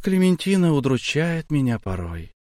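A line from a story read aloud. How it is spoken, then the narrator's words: Slightly tired. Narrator (Russian): сказала она чуть-чуть устало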